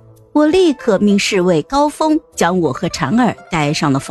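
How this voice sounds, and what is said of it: Usual voice. Nothing is said of it.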